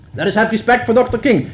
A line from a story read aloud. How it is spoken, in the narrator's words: shouted a heavy lady